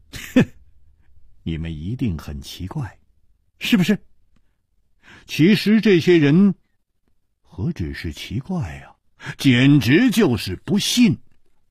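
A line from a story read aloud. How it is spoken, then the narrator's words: Smiling. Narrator (Chinese): 楚留香笑了笑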